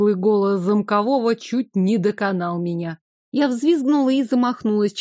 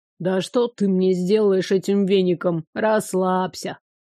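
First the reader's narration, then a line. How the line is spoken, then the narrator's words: Evil spirit grumbling. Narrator (Russian): Пробурчала нечисть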